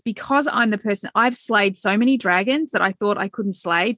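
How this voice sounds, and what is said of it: Excited voice. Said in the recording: “hear the excitement in my voice.”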